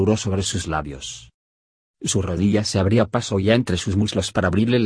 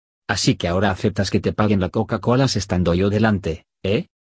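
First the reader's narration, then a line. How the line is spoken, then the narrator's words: Angry tone. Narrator (Spanish): me dijo con tono enfadado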